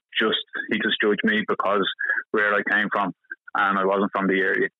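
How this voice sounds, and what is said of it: Normal Dublin accent. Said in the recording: “As you can hear, I was a Dublin accent ... I think you just have a same accent as me, just a normal Dublin accent.”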